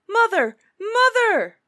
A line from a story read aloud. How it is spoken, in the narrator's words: he called out boldly